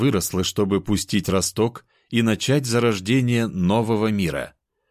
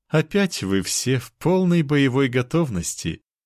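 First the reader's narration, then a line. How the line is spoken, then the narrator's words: Sweet laugh. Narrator (Russian): мило рассмеялась девушка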